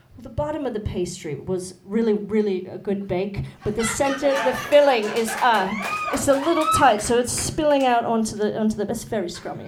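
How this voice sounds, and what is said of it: Put-on British accent. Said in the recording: “like a British accent”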